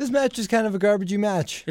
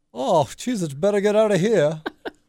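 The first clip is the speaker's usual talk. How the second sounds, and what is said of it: British accent imitating another person's voice. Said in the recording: “That's me being British ... my Wade Barrett impersonation ... It's deeper. Barrett's much deeper.”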